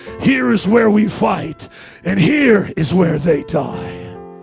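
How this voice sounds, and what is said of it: Imitates a movie warrior character's voice. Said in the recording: “my imitation of Leonidas”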